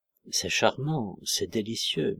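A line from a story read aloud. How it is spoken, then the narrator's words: Murmured to no one. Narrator (French): murmurait-il sans s'adresser à personne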